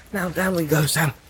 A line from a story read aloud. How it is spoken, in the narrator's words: Frodo whispered